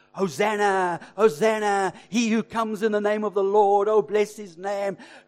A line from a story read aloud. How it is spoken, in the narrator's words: were shouting